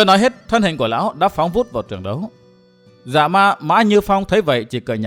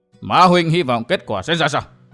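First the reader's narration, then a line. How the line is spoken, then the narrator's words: Cold. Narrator (Vietnamese): Ma Huyết Vương lạnh lùng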